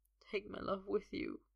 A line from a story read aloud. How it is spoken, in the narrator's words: he whispers